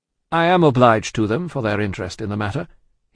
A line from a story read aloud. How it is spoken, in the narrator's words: he answered, a little coldly as to them, though very warmly as to the doctor